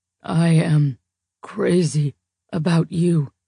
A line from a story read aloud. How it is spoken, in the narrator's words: he rasps